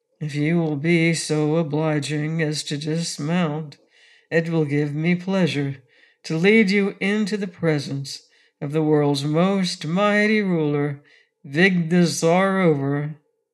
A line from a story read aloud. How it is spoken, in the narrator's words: said in a sad voice